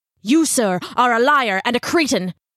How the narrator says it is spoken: Ichabod snarled

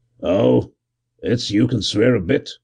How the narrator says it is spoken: growled

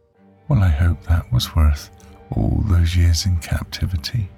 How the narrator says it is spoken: Melissa whispered

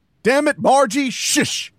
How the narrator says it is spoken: Harold shouted

